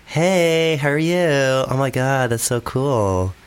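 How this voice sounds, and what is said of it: Valley Girl accent, well done. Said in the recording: “you could do like Valley Girl ... you're actually quite a good at accents”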